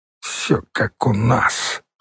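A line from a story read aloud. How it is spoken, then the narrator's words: Grumbling mutter. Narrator (Russian): пробурчала Оксана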